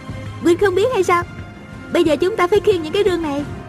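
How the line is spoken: Said giggling. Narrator (Vietnamese): A Cửu cười khúc khích nói

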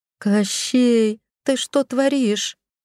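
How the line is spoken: Howling in alarm. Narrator (Russian): Взвыла я, начиная понимать, что Олег решил устроить нам новые неприятности

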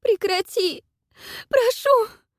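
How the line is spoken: Pleading. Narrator (Russian): взмолилась

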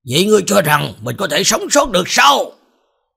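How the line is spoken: Cold low growl. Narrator (Vietnamese): Ánh mắt của Thái Hậu trở nên lạnh lùng, bỗng nhiên gầm nhẹ một tiếng

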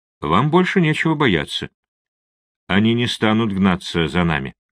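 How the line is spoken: Soft, understanding. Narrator (Russian): Спутник, понимая ее состояние, мягко произнес

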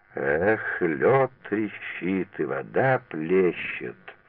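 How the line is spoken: Slow, clipped, syllable by syllable. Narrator (Russian): чеканя слова, медленно по слогам начал

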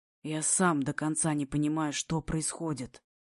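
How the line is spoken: Hoarse whisper. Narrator (Russian): Шепчу хрипло

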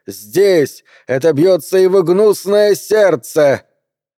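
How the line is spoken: Shrill cry. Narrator (Russian): Энди пронзительно вскрикнул

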